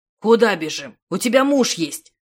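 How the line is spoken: Roar. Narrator (Russian): взревел Радегост

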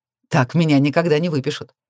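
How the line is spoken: Short laugh. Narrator (Russian): Коротко хохотнул

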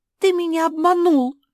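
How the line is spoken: Shrill squeal, young girl. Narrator (Russian): взвизгнула самая юная жительница мопсхауса

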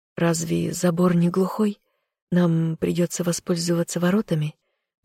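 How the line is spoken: Hoarse statement. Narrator (Russian): Поморщившись от охриплости в собственном голосе, констатировала я

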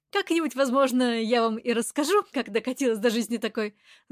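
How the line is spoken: Light tension-easing laugh. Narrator (Russian): засмеялась я, чтобы разрядить обстановку

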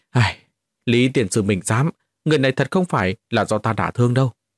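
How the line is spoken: Aggrieved hurried sigh. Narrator (Vietnamese): Lâm Mãnh lập tức cảm thấy oan ức ghê gớm, vội vàng thở dài nói

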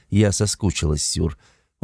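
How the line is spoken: Whisper. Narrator (Russian): прошептала

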